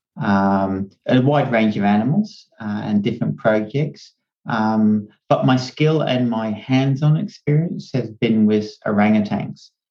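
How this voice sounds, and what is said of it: Australian accent. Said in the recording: “I'm hearing this accent, and I don't think it sounds Indonesian ... My nationality is Australian, but I was brought up in Hong Kong ... Australians don't think I have a true Australian accent, but it's probably close enough for people in North America to pick up I'm Australian”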